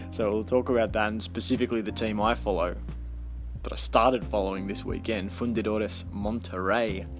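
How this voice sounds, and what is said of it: Australian accent. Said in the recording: “Love that my Australian accent comes in at the end. Fundidores sounds really good, and then I go Monterrey.”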